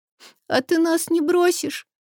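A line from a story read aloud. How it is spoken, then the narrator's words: Sobbing child asking. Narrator (Russian): всхлипнув, спрашивает девочка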